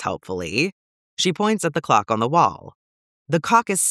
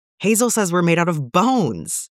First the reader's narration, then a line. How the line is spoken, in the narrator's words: Theo shouts